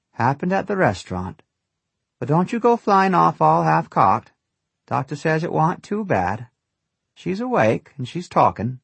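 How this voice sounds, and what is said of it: Long drawling Yankee accent. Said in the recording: “that long and drawling Yankee accent of hers”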